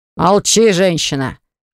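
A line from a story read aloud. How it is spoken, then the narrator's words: Barked shout. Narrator (Russian): Гаркнул на нее Баграт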